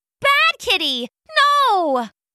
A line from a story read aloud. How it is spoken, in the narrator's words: the maid shouted